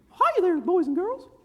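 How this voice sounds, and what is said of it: Mickey Mouse cartoon voice. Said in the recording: “my Mickey Mouse impersonation.”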